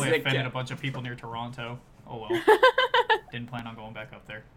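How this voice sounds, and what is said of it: Usual voice. Nothing is said of it.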